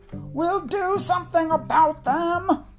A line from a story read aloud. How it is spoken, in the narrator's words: yelled the cat